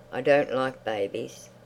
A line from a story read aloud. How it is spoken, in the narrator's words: she checked herself and said to the boy coldly